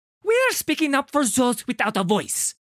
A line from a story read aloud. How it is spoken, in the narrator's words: he snaps